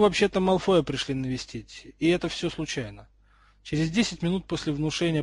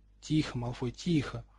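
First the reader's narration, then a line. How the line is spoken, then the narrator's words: Soothing wary mutter. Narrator (Russian): успокаивающе пробормотал Рон, опасливо оглядываясь по сторонам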